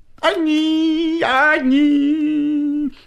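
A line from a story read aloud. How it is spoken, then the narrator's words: Bleating singsong. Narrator (Russian): Козлиным голосом запел длинный клечатый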